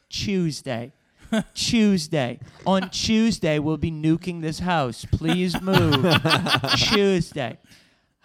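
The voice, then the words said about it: Put-on British accent. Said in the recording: “my British accent. ... They had seen Love Actually many times and would always geek out when I would say,”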